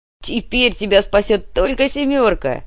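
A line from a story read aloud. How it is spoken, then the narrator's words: Laughing loudly. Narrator (Russian): захохотал Лихослав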